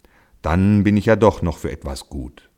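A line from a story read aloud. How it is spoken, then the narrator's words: Ox grumbling. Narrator (German): brummte der Ochse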